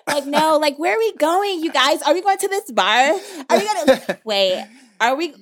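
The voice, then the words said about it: Put-on valley girl voice. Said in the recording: “I'm going to start talking like a white girl.”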